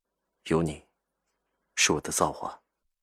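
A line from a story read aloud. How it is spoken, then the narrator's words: Soft sighing. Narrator (Chinese): 轻声叹着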